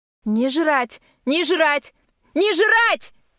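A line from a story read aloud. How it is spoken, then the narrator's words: Rising to a yell. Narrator (Russian): Отбросив все манеры и даже заорав на последних словах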